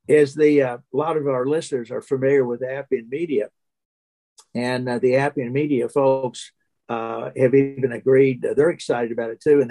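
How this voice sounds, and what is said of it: Hoarse voice. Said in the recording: “sorry, my voice, I'm getting hoarse here, getting too excited”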